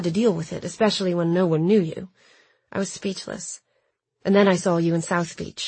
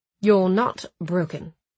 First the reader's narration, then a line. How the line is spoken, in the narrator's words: Noah said firmly